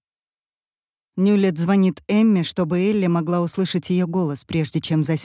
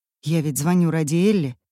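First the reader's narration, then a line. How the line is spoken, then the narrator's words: Angry muttering to himself. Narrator (Russian): сердито бормочет он про себя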